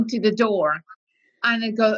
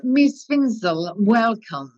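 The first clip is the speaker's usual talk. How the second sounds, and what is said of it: Very posh English accent. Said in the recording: “in the most posh English accent ever”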